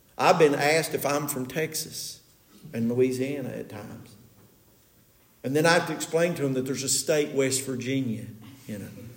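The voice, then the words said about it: Eastern Kentucky / Southern West Virginia accent. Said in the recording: “we have that Eastern Kentucky, Southern West Virginia accent.”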